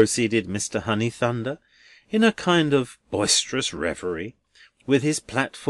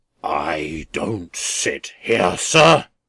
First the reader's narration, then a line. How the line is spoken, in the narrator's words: returned the philanthropist, raising his voice to a roar